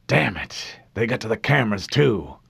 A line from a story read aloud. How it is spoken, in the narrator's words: muttered, impressed